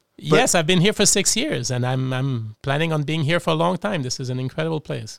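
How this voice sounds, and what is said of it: French-Canadian accent with Australian tinge. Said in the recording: “accent, folks. It's a French-Canadian Aussie accent. ... With a bit of New Jersey in it”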